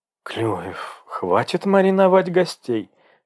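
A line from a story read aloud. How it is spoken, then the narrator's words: Indignant interruption. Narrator (Russian): возмущенно вмешалась она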